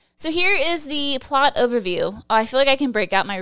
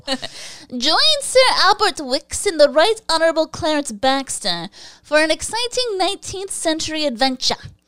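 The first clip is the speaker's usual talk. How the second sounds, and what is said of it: Deliberately bad put-on accent. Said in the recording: “my really bad accent”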